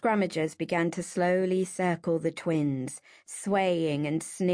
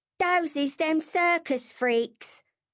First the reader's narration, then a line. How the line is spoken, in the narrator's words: yelled